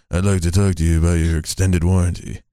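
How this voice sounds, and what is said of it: Imitates another person's voice. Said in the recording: “That was a really good impression ... Your Johnny Depp is actually good”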